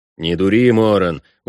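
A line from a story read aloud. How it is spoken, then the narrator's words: Dejected, to oneself. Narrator (Russian): уныло сказал я себе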